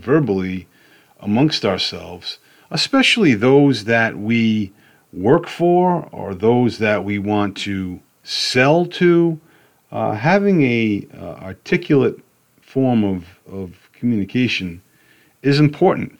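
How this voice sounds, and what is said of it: New York/Boston accent. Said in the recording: “I have a truck driver accent, for crying out loud, from New York, Boston”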